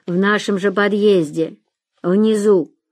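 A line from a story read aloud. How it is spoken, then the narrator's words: Low female voice, dog growling. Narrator (Russian): раздался низкий женский голос, сопровождающийся мелким собачьим рычанием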